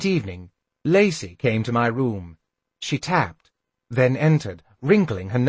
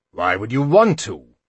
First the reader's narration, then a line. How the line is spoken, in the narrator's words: he growled